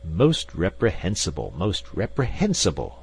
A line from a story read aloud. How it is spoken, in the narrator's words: exclaimed Professor Porter, with a faint trace of irritation in his voice